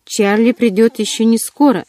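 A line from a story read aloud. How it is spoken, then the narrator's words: Sharp, almost rude. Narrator (Russian): заявила я резко, почти грубо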